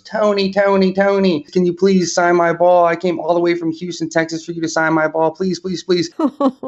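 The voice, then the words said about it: Childlike voice. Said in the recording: “in the most childlike voice ... where did that little childlike voice come from? ... you shouldn't sound like that”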